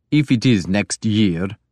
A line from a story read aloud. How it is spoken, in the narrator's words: Guthrum said gloomily